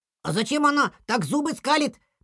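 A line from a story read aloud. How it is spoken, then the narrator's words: Child's squeak. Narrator (Russian): пропищал малыш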